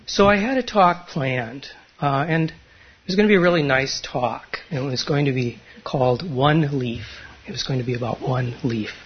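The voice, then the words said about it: Quiet, soft-spoken voice. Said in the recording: “I feel like talking in my quiet voice today”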